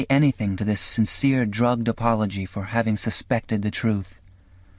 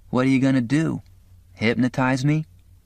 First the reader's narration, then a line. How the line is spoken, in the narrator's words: he said at last in his friendly, knowing voice